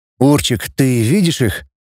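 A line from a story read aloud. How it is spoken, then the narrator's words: Muffled question. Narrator (Russian): глухо спросил Рома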